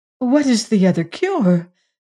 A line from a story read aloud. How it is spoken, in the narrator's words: said Sabrinetta anxiously